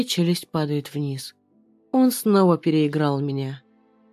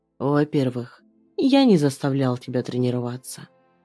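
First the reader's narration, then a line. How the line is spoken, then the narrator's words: Calm man. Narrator (Russian): говорит мужчина спокойно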